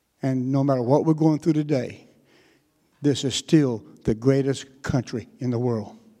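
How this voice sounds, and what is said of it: North Carolina Southern accent. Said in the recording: “this is not a Texas accent ... I am a Tar Heel. I am from North Carolina”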